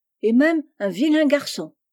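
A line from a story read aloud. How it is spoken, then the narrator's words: Crying out. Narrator (French): s'écria Amy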